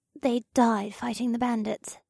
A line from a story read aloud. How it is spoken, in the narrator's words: whispered